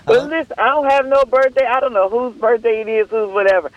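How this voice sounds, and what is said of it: Hoarse, sore-throated voice. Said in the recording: “You got to catch the voice. I'm a little hoarse, throat sore this morning.”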